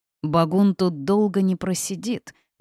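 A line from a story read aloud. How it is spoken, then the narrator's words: Through gritted teeth. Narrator (Russian): процедил Лихо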